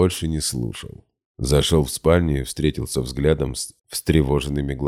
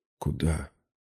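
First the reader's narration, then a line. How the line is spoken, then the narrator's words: Quiet question. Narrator (Russian): тихо спросила она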